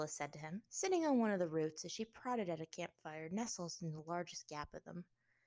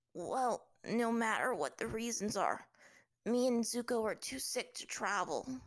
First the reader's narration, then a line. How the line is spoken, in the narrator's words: said Aang, his voice weak